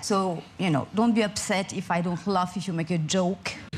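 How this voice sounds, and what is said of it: French accent. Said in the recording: “don't forget I'm French ... my super French accent”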